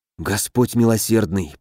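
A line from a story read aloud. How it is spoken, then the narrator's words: Muttered. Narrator (Russian): пробормотал цесаревич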